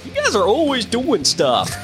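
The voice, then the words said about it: Bad impression of a colleague. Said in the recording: “make that really bad impression of you”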